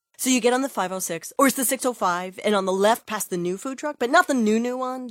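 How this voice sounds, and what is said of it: Rambling, confused direction-giver voice. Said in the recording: “my impression of someone who is terrible at giving directions”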